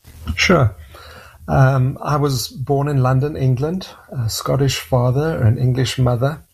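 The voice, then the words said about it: South African accent. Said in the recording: “your accent is not what we would consider Canadian ... we emigrated to South Africa, and that's my accent. I lived in South Africa for 25 years.”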